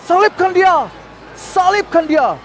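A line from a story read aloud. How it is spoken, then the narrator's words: Crowd shouting repeatedly. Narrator (Indonesian): orang ramai itu berteriak-teriak lagi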